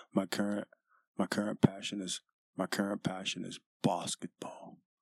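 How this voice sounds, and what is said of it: Mock Australian accent imitating Ben. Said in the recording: “The fucking accents, man. So many fucking letters you're not pronouncing and shit. So many letters you're mispronouncing. I watched Ben on fucking Forbes.”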